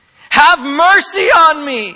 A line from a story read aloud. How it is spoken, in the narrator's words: keeps screaming